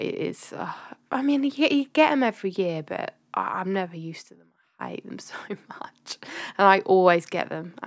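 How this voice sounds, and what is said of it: Sniffly, congested voice from a cold. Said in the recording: “I'm really sorry if you can still hear it in my voice. I'm still a bit sniffly”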